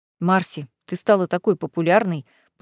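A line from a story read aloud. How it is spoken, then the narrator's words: Jealous mutter. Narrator (Russian): пробормотал Виконт, ревниво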